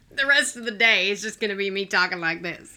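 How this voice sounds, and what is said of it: Put-on Southern accent. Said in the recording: “my plantation Southern ... this accent, too, because I can't get out of it now”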